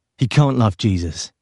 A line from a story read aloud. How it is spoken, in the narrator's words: he said